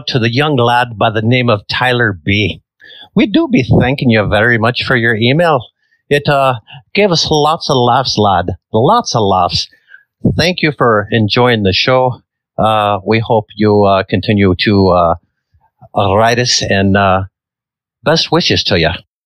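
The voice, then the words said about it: Rough put-on Irish accent. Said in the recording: “Suddenly, ... became Irish. ... I'm working on those accents. They're rough.”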